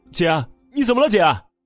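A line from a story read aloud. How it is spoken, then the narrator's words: Anxious shouting. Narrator (Chinese): 着急的喊了起来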